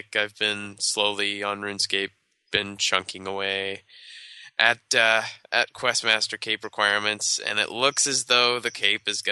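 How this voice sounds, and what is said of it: Slightly off, sick-sounding voice. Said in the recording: “my voice is a little bit off. It's not as bad as it was earlier today and yesterday ... I get sick”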